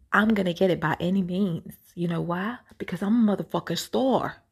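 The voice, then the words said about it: Put-on accent. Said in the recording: “Let me do let me do the accent real quick.”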